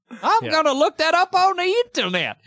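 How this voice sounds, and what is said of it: Old prospector character voice. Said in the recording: “I kind of say it like a prospector. ... It's hard to do, actually, as a prospector.”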